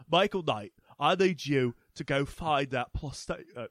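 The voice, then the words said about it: Imitates another person's voice. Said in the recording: “My accent keeps changing. ... I sound like Michael Caine.”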